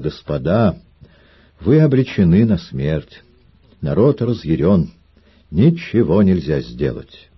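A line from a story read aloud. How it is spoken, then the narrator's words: Quiet, feigned sorrow. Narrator (Russian): тихо, с притворной скорбью на лице, сказал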